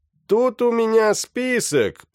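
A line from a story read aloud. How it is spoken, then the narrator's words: Shouted. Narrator (Russian): прокричал он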